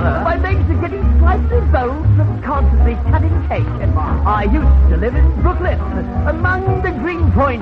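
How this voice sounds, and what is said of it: Put-on posh British accent. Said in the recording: “my British accent. Excuse my Mayfair drawl ... Overlook my Oxford intonation ... So pardon my British accent.”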